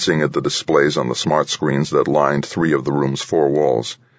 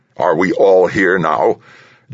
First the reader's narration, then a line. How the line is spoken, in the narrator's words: General Higgins asked, his tone biting, his fleshy face clearly displeased